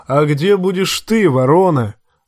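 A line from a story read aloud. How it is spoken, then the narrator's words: Thunderous question. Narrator (Russian): громовым голосом спросил Боррок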